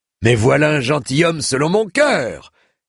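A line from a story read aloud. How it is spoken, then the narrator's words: Exclaiming. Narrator (French): s'exclama-t-il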